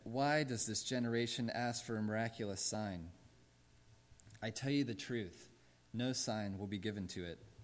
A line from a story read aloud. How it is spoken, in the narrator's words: He sighed deeply and said